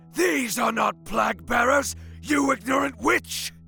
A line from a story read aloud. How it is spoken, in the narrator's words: Burgund yelled